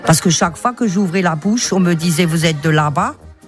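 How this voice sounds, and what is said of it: Comic exaggerated Alsatian French accent. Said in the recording (French): “votre rendez-vous d'humour alsacien avec, dans le rôle de Bernadette, l'humoriste Patricia Veller, qui rit de notre accent”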